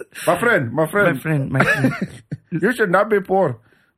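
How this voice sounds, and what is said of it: Put-on Indian accent. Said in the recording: “I do a great Indian accent.”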